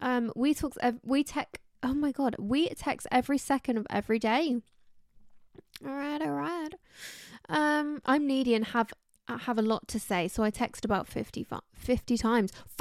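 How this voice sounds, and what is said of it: Croaky, tired-sounding voice. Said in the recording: “My voice is very croaky today. I'm sounding a little bit like a Kardashian. ... My voice is tired. Can you hear that? My voice is actually tired.”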